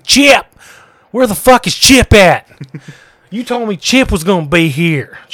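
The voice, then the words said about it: Thick put-on redneck accent. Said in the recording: “I put on this, like, real thick, like, redneck accent.”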